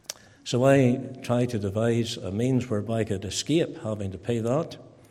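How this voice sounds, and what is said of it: Strong Ballymena accent. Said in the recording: “I'm a good Ballymena man, just as strong as my accent”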